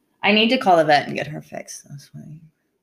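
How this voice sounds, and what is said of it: Whispering. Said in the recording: “Why are you whispering this right in my face”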